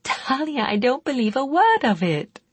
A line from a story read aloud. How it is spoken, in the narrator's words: Cheryl giggled